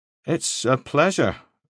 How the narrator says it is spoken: Moody said, in a rather automatic tone

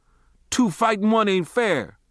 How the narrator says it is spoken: I yelled

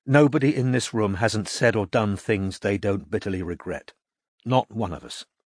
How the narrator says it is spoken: said Kim gently at last

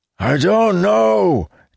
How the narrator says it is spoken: Tyrus yelled back, only just audible

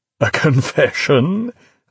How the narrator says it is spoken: Lilliman laughed, annoyance disappearing

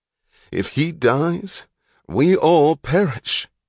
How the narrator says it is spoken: Thompson, and his voice cracked suddenly into a moan

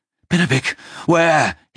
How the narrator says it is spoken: he shouted, his voice cracking

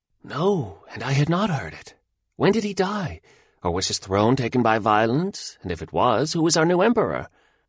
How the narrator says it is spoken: a great look of terror came over the man's face, and he said in a whisper

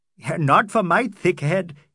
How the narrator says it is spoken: he laughed

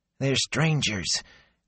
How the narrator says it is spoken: Gelb pleaded, quietly

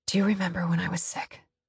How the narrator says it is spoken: I whisper against his ear

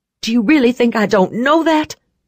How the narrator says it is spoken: I snapped

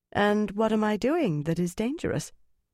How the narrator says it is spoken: She tried to make her voice light, but it was difficult

